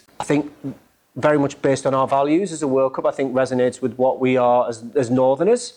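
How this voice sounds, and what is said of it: Northeast English accent. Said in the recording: “As you can tell by my accent, I was born and bred in the Northeast.”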